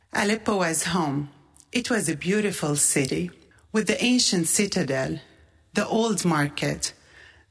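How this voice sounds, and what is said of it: Syrian accent. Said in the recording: “What a beautiful accent you have. Where are you from?" "Syria.”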